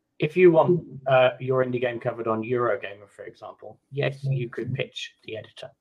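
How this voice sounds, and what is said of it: British accent. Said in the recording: “So I'm based in the UK, for those that hadn't guessed by my weird accent”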